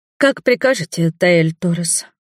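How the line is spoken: Sad sigh, young woman. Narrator (Russian): Девушка печально вздохнула

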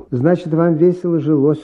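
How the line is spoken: Plain. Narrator (Russian): сказала Иловайска

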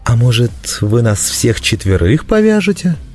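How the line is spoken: Insinuating question. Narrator (Russian): вкрадчиво поинтересовался Гонда

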